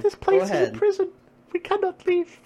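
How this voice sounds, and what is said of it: Put-on female voice. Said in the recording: “Let's see your female accent”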